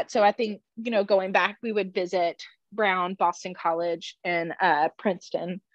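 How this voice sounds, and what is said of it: Strained, affected voice. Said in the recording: “Sorry for my voice. Pollen is off the charts here.”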